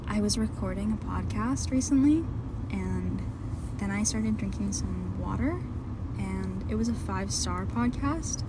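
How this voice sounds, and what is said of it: Seductive whisper. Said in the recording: “my Megan Fox impression ... Was it seductive? ... It just sounded like you whispering.”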